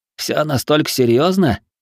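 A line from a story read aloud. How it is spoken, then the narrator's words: Snorting. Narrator (Russian): хмыкнул Хироши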